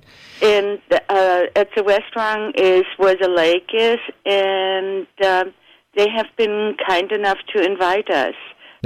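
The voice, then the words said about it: Slight Belgian accent. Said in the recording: “I detect a little bit of an accent in your voice ... I'm originally from Belgium”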